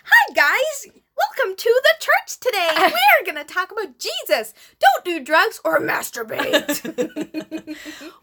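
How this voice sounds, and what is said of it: Peppy, upbeat youth pastor voice. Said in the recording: “A youth pastor has so much pep in their voice.”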